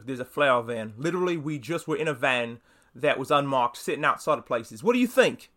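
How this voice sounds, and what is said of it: Bad put-on British accent. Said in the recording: “Sorry for my bad British accent”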